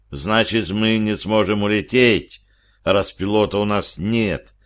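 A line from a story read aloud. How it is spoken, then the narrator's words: Sighing. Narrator (Russian): вздохнул сержант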